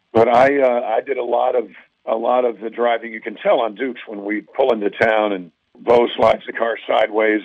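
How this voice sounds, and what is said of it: Hoarse, nearly lost voice. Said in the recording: “forgive my voice. It's just gone.”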